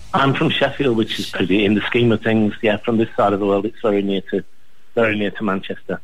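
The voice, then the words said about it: British (Sheffield) accent. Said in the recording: “You got a British accent.”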